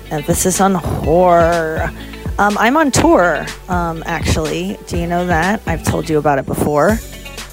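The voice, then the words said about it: Slightly altered speech, dental aligners. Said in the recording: “if I sound differently, it's because I've got Invisalign in, and I'm horizontal.”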